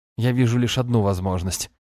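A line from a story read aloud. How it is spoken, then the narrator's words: Scoffing priest. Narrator (Russian): хмыкнул жрец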